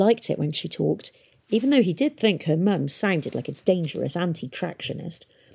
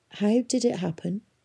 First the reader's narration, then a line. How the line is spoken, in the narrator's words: he asked her gently